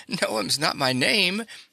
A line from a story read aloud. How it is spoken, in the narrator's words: laughed Bobby